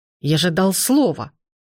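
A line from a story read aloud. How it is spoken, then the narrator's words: Growl. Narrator (Russian): зарычал он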